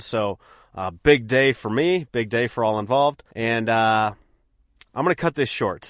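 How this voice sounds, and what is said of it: Sick-sounding voice. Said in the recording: “I am fighting illness. I don't know if you can hear that in my voice”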